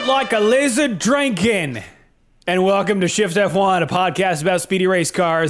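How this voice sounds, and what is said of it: Put-on Australian accent. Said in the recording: “I think that's my best Australian accent yet, to date. ... You sounded like a Foster's commercial.”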